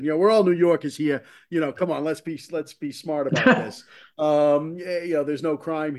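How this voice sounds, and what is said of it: Bostonian doing a New York accent. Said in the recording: “New York accent... That was my Boston accent. That was a Bostonian impersonating a New Yorker.”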